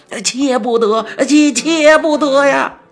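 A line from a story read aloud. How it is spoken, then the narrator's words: Shouting while running. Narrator (Chinese): 一边跑一边大声的喊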